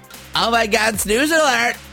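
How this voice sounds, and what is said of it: Grating American teen accent. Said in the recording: “I feel like I'm in an American teen drama ... That was grating, that accent.”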